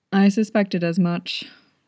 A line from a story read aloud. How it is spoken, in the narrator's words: Chief Mei said wearily